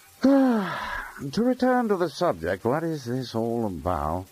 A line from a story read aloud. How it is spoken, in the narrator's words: asked de Meister wearily